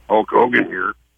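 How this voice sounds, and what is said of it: Hulk Hogan impression. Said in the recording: “doing a Hulk Hogan impersonation”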